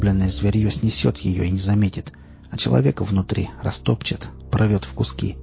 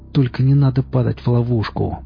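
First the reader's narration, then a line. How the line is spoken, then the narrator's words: Growled. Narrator (Russian): прорычал лесник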